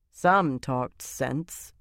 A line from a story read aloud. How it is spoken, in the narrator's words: Sylviana said dryly